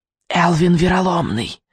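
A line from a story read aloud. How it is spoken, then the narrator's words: Witch whispering. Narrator (Russian): прошептала ведьма во мраке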